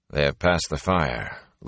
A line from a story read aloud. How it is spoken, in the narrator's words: Lan said calmly